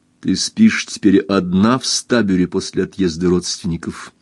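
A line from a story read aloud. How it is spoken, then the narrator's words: Plain. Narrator (Russian): спросил Эрленд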